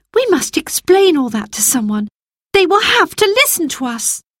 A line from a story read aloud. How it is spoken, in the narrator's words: cried Roberta